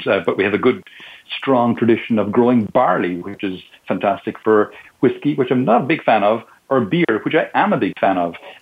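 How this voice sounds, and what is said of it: Irish accent. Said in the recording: “My accent is not a Spanish accent, obviously. I'm originally from Ireland”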